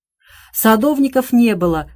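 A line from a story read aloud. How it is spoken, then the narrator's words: Short chuckle. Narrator (Russian): хохотнула миссис Флашинг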